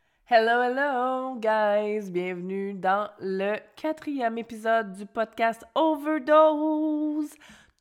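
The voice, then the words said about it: Hoarse, congested voice from flu. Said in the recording (French): “Toujours avec ma voix grippée, ça part pas. Je pense que quand vous allez enfin entendre un épisode de moi normal”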